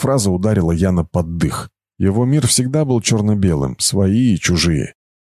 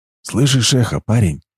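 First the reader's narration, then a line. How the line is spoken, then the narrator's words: Whisper. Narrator (Russian): прошептал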